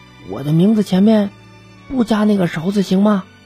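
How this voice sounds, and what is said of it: Quiet, timid voice. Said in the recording (Chinese): “又有点小声的说”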